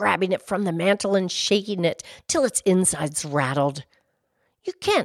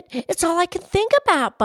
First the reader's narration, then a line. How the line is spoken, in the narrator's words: Bobby exclaimed